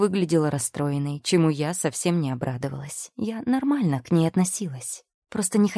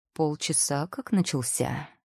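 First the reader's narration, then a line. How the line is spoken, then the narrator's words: Calm answer. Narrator (Russian): спокойно ответил он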